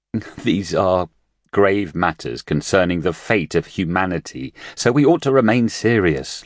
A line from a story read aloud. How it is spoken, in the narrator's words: Luo Ji said, holding in his laughter